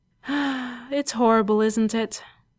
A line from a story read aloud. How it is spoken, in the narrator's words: The doctor sighed wistfully